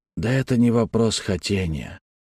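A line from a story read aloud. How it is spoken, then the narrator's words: Muttered. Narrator (Russian): пробормотал Малькольм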